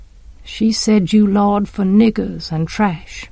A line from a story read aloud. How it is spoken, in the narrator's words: Jem said softly